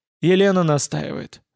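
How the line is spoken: Sighing. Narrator (Russian): вздохнул Олов

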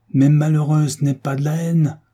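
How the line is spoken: Father's desperate cry. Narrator (French): s'écria le père au désespoir

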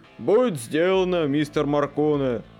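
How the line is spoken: Deep bass reply. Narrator (Russian): басом отозвался Хендрикс

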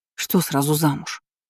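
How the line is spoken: Displeased grumble. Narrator (Russian): недовольно буркнула Роза

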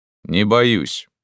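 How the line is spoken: Calm reply. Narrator (Russian): спокойно ответил я

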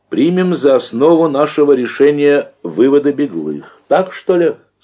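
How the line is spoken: Plain. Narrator (Russian): спросил секретарь

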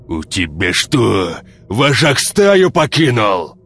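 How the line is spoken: Barked. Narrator (Russian): Рявкнул хвост

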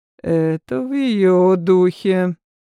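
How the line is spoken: Grumbled, lord. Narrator (Russian): Буркнул лорд

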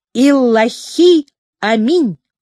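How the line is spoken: Loud crowd in unison. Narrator (Russian): огромная толпа громко, будто одним выдохом, повторила

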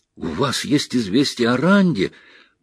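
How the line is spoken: Impulsive exclamation. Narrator (Russian): порывисто воскликнула Эгвин

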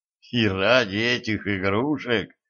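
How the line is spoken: Puzzled mutter. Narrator (Russian): недоуменно пробормотал император

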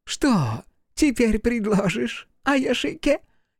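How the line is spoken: Giggling. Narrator (Russian): хихикнула Хока

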